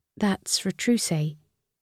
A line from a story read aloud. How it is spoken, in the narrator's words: Lucy murmured